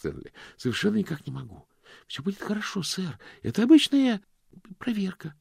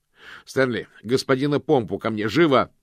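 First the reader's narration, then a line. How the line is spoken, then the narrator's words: Muffled shout. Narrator (Russian): крикнул мокрец, но колпак на голове был слишком плотным и тесным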